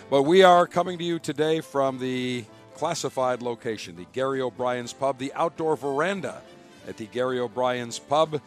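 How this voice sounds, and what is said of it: Voice worn, not yet recovered. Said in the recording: “my voice has still not recovered because we went from early morning till late in the evening”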